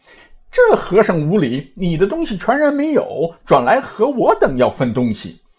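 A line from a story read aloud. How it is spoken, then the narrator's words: Chaotic group clamoring. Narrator (Chinese): 那贼……喜的喜，怒的怒，爱的爱，思的思，欲的欲，忧的忧，一齐上前乱嚷道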